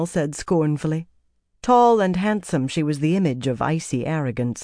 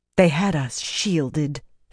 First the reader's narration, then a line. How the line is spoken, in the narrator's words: Phelan said bitterly